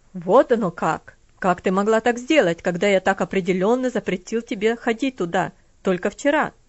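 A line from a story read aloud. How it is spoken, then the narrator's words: Cold harsh question. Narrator (Russian): Спросил он холодным, жестким тоном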